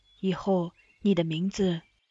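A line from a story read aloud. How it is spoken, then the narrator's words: Soft. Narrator (Chinese): 他轻声念着，对他道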